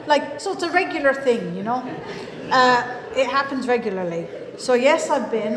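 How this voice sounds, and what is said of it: Irish accent. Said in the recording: “your accent's lovely. And I go, yeah, it's Irish.”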